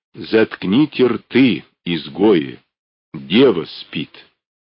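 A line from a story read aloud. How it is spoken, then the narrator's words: Strange ringing voice. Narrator (Russian): Каким-то незнакомым, звенящим голосом произнес он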